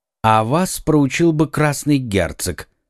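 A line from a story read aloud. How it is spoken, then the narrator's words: Calm remark. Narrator (Russian): спокойно заметил Арамис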